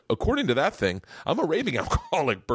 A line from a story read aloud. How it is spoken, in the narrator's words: Bert said with a kind of distant chuckle